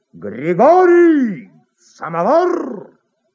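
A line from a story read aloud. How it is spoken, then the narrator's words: Shouting at top of lungs. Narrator (Russian): кто-то кричал во все горло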